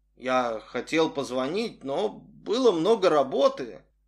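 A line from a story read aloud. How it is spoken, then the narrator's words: Mumbling. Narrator (Russian): начал мямлить Арсений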